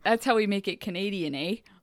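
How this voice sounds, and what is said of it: Put-on Canadian accent. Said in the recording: “Those accents.”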